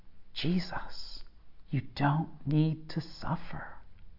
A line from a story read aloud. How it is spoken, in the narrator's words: the devil is again offering him a way out, whispering